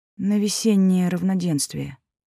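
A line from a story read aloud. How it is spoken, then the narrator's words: Dull muffled mutter. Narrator (Russian): также глухо пробормотала Райвер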